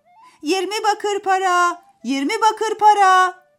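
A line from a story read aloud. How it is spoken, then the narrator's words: Shouting. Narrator (Turkish): diye bağırıyormuş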